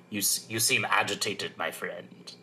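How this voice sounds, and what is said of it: Imitates Palpatine's voice. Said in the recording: “great impression”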